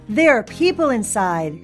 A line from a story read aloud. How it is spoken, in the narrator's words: she heard the chief shout